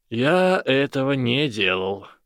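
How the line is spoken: Tired. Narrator (Russian): устало сказал Гарри

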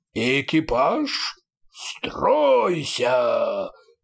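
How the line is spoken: Roar, two-headed creature. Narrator (Russian): взревел двуглавый Юл

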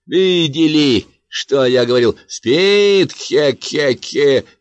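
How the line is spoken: Overly loud shout. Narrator (Russian): крикнул он, как мне показалось, слишком громко

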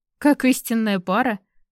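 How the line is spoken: Short laugh. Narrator (Russian): хохотнул Дерек

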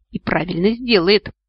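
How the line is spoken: Woman's snarl. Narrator (Russian): рыкнула супруга

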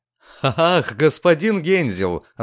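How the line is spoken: Governess laughing. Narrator (Russian): рассмеялась гувернантка

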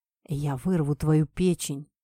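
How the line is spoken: Hoarse rasp. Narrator (Russian): прохрипел Кумихо

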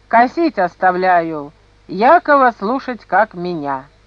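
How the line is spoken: Stern command. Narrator (Russian): Кирилл повелел строго

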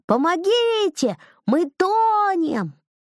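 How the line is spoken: Two voices yelling. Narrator (Russian): Лиза с Данилом как заорали

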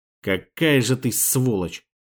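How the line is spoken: Muttered through gritted teeth. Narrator (Russian): процедил сквозь зубы

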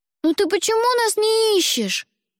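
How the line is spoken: Shout. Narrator (Russian): закричал Димка

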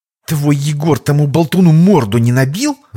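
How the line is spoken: Angry hiss, woman. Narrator (Russian): зло прошипела царевна, в одночасье лишившаяся своего тайного развлечения

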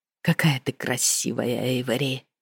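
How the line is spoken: Tender whisper. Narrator (Russian): прошептал Ренальд

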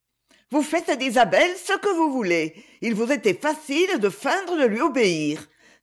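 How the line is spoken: Ironic exclamation. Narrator (French): s'écria ironiquement Lady Ophelia

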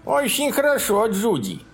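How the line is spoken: Lisping older woman shouting. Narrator (Russian): крикнула шепелявя женщина в годах

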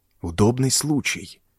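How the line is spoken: Whispered. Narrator (Russian): прошептал

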